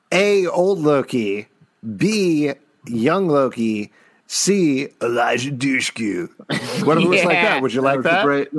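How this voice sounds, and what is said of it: Impression of a co-host. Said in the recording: “That's a great impression of me.”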